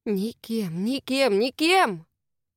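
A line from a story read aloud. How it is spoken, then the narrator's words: Deafeningly loud inner voice. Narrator (Russian): Оглушающе громко прозвучало в голове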